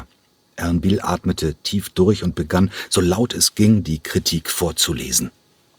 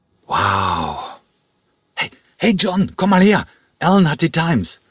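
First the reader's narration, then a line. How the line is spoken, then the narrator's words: Calling out. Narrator (German): rief Egon dem Ballettdirektor zu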